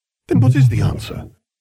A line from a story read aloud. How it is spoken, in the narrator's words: I sighed heavily